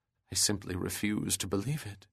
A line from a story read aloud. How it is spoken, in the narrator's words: she murmured